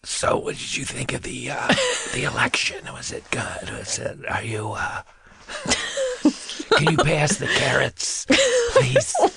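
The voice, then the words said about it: Impression of a gravy-less Thanksgiving diner. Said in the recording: “my impression of someone who enjoys Thanksgiving without gravy ... Your impression of someone who does not like gravy ... turkey dinner without gravy ... That's what it sounds like”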